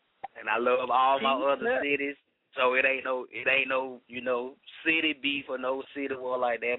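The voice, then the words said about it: Southern American accent, Atlanta. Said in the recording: “the southern accent, you know, I'm from the A. I mean, Atlanta, Georgia, I'm from the south”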